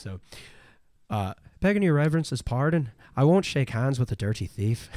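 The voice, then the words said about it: Put-on Irish brogue. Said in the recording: “Irish whisper, and I'm gonna try and do this in a in a brogue accent”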